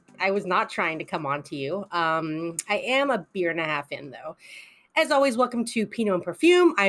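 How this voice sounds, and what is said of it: Usual voice. Nothing is said of it.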